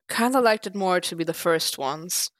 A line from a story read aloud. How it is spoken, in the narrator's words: Matt agreed, sighing deeply